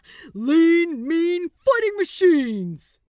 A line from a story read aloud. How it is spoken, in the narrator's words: Gabriel roared